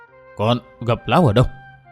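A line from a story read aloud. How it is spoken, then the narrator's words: Startled, stammering old woman. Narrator (Vietnamese): lão nương giật thót mình một cái, thiếu hẳn vẻ trầm tĩnh bình thường hàng ngày, người lắp bắp đôi môi hồi hộp hỏi khẽ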